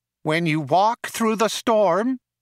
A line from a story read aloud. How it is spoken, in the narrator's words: whined nasally